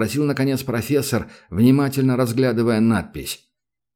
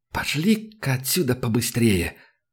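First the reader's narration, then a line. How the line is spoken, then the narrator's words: Muttering. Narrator (Russian): пробормотал Санька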